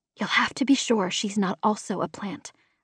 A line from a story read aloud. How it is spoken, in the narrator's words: I whispered